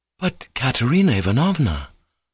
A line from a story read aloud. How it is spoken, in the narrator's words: exclaimed Alyosha sorrowfully